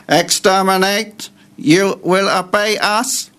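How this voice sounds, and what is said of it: Dalek robot voice impression. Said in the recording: “give us your Dalek impression”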